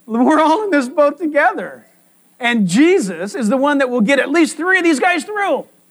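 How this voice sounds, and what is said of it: Yelling, loud excited preaching. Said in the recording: “Why are you yelling?”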